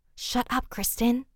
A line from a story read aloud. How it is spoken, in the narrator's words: both said in an almost whispering voice